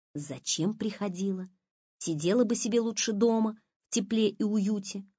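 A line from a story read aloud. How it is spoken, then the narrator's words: Whisper into neck. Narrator (Russian): зашептала Лиза Маше в шею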